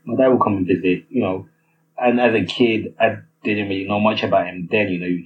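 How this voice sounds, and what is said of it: Nigerian accent. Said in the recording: “I was born and raised in Nigeria, as you can tell from my accent.”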